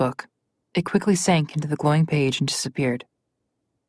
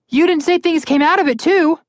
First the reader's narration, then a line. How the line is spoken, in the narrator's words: Connor yelled